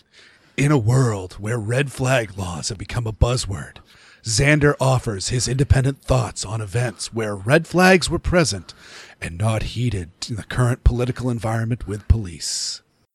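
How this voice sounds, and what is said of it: Dramatic movie trailer announcer voice. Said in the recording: “radio movie announcer voice”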